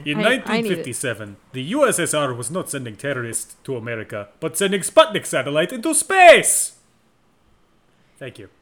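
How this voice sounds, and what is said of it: Bad put-on Russian accent. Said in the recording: “I'm doing a really bad Russian accent”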